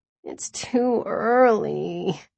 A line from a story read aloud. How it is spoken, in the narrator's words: I groaned